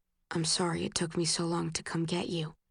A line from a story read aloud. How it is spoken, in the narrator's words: he whispers into my hair